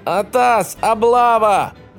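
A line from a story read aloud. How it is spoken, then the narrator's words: Yell. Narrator (Russian): заорал он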